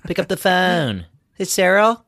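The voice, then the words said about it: Put-on Maryland accent. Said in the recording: “If you do it with like a Maryland accent”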